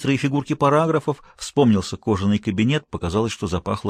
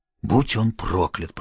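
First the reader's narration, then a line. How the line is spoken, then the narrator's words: Hoarse rasp. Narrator (Russian): прохрипел я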